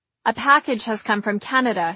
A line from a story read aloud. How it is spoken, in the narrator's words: he said